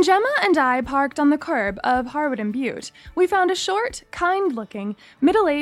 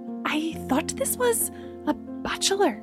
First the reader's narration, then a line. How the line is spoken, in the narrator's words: Gemma whispered